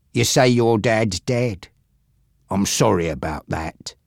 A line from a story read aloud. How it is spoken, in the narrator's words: he said